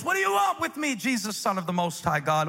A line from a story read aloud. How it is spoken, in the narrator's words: he shouted at the top of his voice